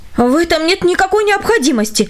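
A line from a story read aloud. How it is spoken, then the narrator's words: Astonished wife exclaiming. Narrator (Russian): воскликнула его пораженная жена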